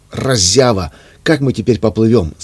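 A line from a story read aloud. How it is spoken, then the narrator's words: Shouting. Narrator (Russian): закричал Рауф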